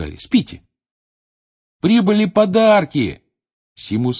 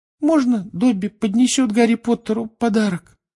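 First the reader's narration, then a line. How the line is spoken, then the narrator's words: Timid question. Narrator (Russian): робко спросил он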